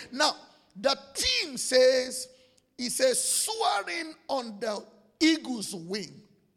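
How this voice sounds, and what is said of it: African-accented English. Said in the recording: “I just came from Africa ... don't judge me by my accent.”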